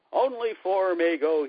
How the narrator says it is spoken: shouted

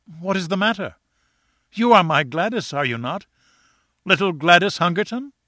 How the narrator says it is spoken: cried

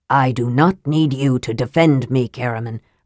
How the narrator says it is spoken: said, adding bitterly

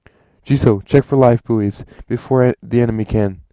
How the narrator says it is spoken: yelled Rontre through the comm

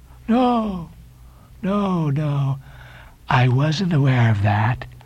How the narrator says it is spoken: said Elijah, slowly and wonderingly

